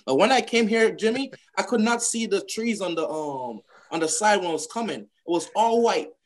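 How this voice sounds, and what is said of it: Slight Jamaican accent. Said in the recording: “they can hear that you have a little bit of an accent ... I'm from Jamaica”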